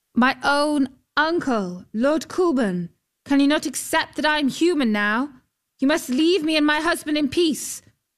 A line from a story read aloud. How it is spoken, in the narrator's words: She went to stand in the prow of the boat and called out